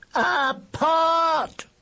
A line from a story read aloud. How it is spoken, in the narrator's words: shouted George in a loud, commanding voice